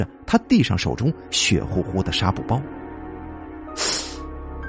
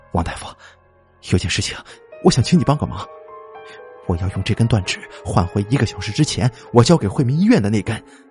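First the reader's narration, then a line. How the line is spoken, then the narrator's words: Breathless, incoherent. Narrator (Chinese): 他喘息了一下，语无伦次的说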